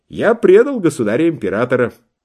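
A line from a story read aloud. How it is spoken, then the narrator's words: Cheerful reply. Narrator (Russian): весело отвечали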